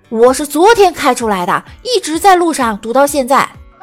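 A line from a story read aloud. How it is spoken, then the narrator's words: Hot-tempered roar. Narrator (Chinese): 李大脚这暴脾气，当时就冲着交警吼道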